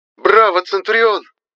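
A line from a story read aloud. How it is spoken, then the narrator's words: Shouting. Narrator (Russian): закричала Фагельма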